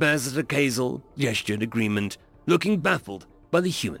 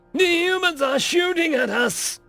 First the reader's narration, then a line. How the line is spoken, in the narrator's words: one voice shouted